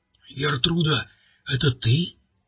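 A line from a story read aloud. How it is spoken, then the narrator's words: Weak questioning voice. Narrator (Russian): слабым голосом спросил полицейский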